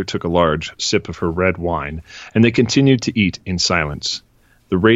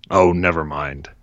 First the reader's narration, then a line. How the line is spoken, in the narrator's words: grumbled